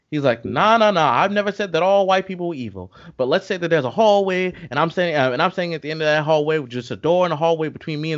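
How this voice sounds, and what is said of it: Imitates another person's voice. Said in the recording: “my impersonation is not the best”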